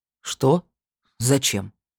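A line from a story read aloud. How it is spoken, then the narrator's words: Sharp blurted outburst. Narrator (Russian): вырвалось, насколько резко это прозвучало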